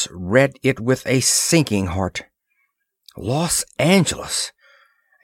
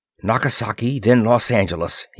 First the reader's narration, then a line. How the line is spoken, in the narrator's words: he muttered